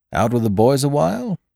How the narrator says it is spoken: asked Coltrane kindly

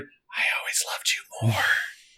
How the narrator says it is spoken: she leaned and whispered

